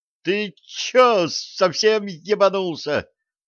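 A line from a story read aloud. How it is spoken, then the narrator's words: Thin shriek. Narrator (Russian): тонко взвизгнул Джо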